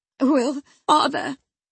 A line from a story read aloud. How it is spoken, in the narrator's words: he panted